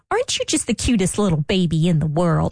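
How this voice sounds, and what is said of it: Imitates mother's baby-talk voice. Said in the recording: “talking like my mom ... Just how she used to talk to the babies”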